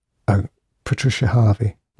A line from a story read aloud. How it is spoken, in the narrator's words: whispered Grace almost to herself